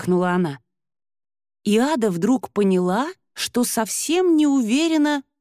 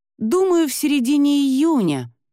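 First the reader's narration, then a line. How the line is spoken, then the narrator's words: Hesitant, forced out. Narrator (Russian): выдавила нерешительно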